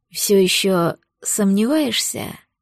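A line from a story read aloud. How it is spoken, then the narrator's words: Hoarse question. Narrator (Russian): хрипло спросил Дориан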